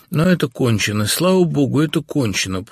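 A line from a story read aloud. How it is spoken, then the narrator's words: Whisper. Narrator (Russian): прошептал он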